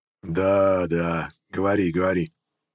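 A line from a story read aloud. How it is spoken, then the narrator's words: Chuckling. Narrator (Russian): хохотнул голова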